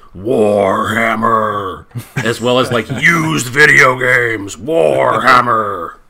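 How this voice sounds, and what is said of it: Booming monster-truck radio announcer voice. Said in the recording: “the radio announcer voice, like the one that's like for monster trucks”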